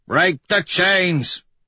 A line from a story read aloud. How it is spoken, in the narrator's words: Dancer bellows